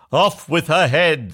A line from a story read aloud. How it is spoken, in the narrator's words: the prince roared back